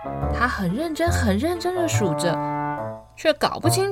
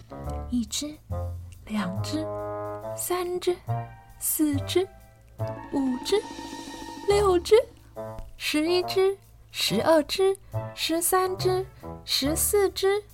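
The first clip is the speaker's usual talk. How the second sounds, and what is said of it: Quiet hushed counting. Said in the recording (Chinese): “乌噜怕吵醒小猪，就小小声的数着”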